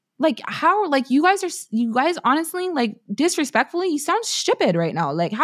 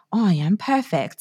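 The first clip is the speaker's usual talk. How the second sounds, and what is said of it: Put-on British accent. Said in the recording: “I always speak in a British accent whenever I say perfect”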